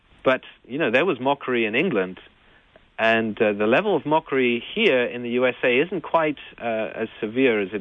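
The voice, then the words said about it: English accent. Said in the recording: “I kind of grew up not in Pittsburgh, but in England. Maybe it's that my accent gives me away”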